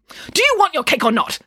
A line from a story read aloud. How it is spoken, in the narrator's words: snapped Nanny Piggins